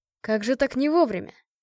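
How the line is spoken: Scoffing grunt. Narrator (Russian): Я хмыкнула

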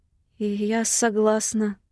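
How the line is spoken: Trembling voice. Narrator (Russian): отвечаю дрожащим голосом

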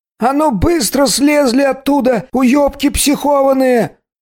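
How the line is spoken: Yelling policeman. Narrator (Russian): Заорал нам с Длинным мент соседней крыши

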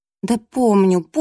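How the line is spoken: Displeased muttering. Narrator (Russian): недовольно пробурчала

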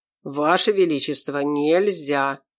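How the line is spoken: Quiet. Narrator (Russian): тихо добавил

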